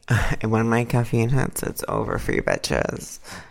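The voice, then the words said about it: Sleepy, soft voice. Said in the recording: “your sleepy voice is so sweet ... You're really like ASMR-y right now.”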